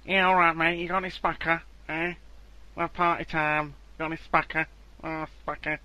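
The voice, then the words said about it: Put-on unidentified accent. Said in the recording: “I don't know what accent this is.”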